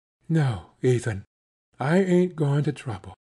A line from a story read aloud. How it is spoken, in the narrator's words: flushed up warmly and whispered back